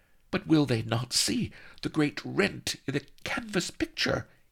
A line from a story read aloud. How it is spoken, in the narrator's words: hissed Vanity, huddled against him